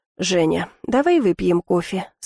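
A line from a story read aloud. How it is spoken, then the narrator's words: Calm. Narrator (Russian): спокойно сказал он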